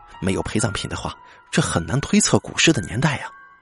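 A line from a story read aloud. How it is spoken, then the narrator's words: Heavy sigh. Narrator (Chinese): 我重重的叹了口气说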